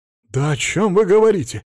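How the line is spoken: Exclaiming. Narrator (Russian): воскликнул Платон Миронович

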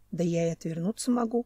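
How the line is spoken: Muttering. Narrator (Russian): пробормотал Семен

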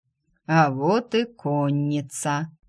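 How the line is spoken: Amused drawl. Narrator (Russian): протянул темный, чему-то усмехнувшись

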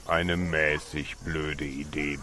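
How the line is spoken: Old man's grumble. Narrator (German): brummte der alte Ratsherr

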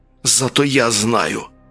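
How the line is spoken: Hissed. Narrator (Russian): прошипел плащ

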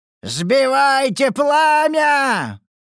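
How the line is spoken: Frantic yell. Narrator (Russian): заорал, словно ненормальный

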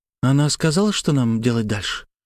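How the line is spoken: Sad question. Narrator (Russian): грустно спросила Славя

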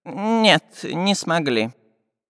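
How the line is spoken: Sad sigh. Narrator (Russian): огорченно вздохнул Семен Семенович

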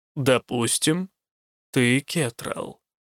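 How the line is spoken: Slow reply. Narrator (Russian): медленно отозвался он

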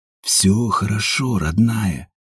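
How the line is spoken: Whisper. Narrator (Russian): шептал Ажур

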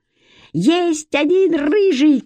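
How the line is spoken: Shout. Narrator (Russian): крикнул он

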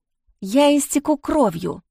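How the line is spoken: Strained, barely restrained. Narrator (Russian): с трудом сдерживаясь, выдавила

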